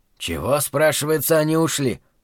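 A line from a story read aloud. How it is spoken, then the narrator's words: Grumbling. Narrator (Russian): ворчал Зарая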